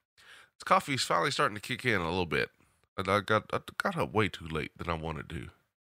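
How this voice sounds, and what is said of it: Southern accent with a twang. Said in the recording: “my southern accent twang”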